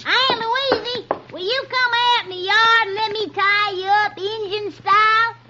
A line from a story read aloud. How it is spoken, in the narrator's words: Little Jughead comes into the house with a rope over his arm and he screeches